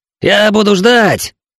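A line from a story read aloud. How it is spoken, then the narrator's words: Shouting. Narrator (Russian): крикнул он капитану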